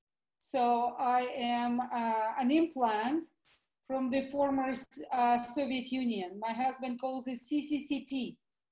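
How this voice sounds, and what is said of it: Russian accent. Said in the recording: “obviously you can hear my Russian accent.”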